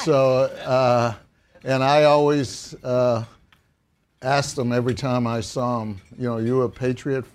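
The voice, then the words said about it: Massachusetts accent. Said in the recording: “in case you don't know from my accent, we drink water from Massachusetts. This is a good Worcester gal.”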